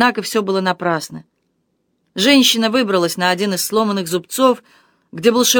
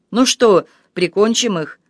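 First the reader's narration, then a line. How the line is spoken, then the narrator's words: Coarse guffaw. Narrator (Russian): грубо загоготал Гийом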